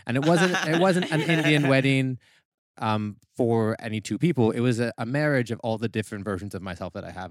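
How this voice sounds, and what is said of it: North American accent. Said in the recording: “your accent. Are you American? ... I'm actually Canadian.”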